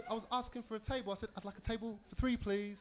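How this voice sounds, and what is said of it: British accent. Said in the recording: “Is that your accent for real? ... British homie”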